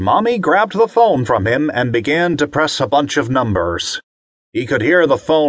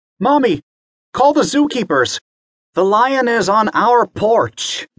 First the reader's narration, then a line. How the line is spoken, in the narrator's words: Bobby yelled